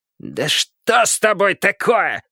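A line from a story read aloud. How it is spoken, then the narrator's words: Barked reply. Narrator (Russian): гаркнул в ответ Шрамодух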